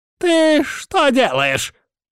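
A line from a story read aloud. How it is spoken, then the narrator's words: Old man shrieking. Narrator (Russian): взвизгнул старик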